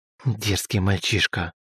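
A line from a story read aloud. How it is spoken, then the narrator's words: Through gritted teeth. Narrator (Russian): процедила Елизавета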